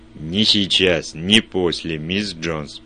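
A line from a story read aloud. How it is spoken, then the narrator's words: Growled. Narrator (Russian): прорычал Вульф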